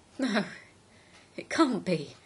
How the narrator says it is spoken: he whimpered

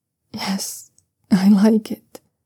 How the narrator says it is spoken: Siawei whimpers again, and then says quietly

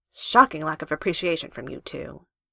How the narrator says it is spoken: Finn grumbles, his smile belying his attempt to sound grumpy

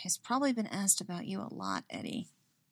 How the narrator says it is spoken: she mutters

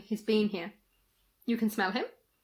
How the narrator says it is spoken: said quietly

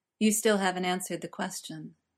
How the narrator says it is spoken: Spike said softly

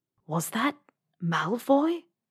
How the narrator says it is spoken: An unmistakable, disbelieving voice whispered behind her

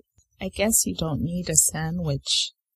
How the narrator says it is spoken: Jared says with a low chuckle

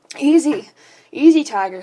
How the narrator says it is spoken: moaned

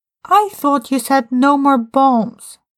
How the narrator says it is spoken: Tim exclaimed

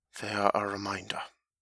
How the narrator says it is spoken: he only sighed again, not quite as deeply, and said

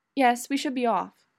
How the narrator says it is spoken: Miss Finch says, with a sigh

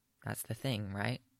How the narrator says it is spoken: Yaskir says softly

